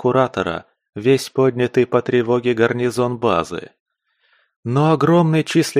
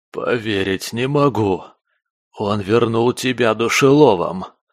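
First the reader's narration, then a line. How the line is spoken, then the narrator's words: Hoarse groan. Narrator (Russian): осипшим голосом простонал куратор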